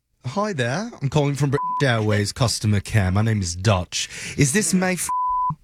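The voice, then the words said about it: Deliberately bad put-on British accent. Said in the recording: “my absolute worst British accent”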